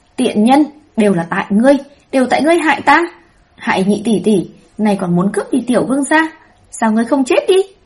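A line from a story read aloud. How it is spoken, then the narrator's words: Hoarse murderous scream. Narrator (Vietnamese): Tây Lương Đan gào khản cả giọng, đằng đằng sát khí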